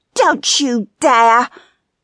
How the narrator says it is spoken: she growled

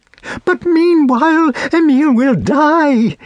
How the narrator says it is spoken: cried the girl

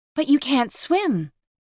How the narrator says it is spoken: Vanessa cries frantically

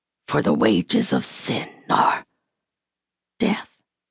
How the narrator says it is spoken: she whispered

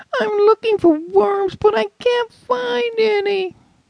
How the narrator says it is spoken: whined

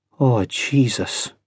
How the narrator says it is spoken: whispered

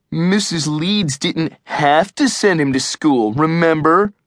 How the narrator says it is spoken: Eugene mocked

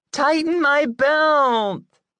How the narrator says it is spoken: whines the little girl

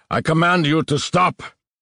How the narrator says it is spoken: The younger one shouting angrily as he ran

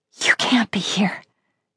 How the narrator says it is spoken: whispered

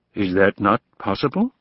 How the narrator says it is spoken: Kay asked calmly

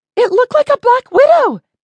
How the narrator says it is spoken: Betty yelled

